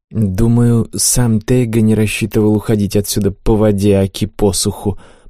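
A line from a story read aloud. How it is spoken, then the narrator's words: Muttered. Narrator (Russian): пробормотал Ней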